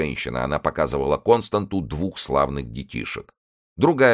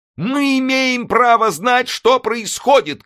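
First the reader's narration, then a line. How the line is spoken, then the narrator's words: Shouting. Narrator (Russian): крикнула она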